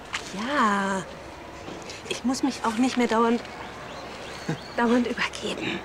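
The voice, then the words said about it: Whispering. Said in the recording (German): “Warum flüsterst du?”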